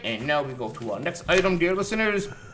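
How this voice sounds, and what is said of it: Radio announcer voice. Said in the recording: “He's putting on his radio voice.”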